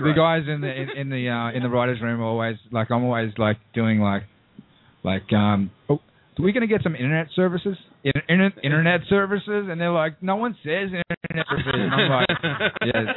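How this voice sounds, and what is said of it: Australian accent. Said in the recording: “Did they want you to stay Australian for the character on the show ... about the Australian accent”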